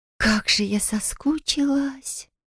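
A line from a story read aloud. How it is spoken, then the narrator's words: Drawling young woman. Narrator (Russian): протянула девушка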